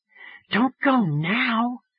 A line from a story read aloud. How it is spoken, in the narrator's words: Phoebe whispered